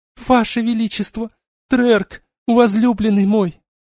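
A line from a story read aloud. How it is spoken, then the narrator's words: Sobbing muffled whisper. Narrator (Russian): Рыдания белого мага глухим шепотом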